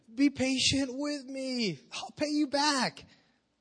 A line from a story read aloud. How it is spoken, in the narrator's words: fell on his knees and he begged him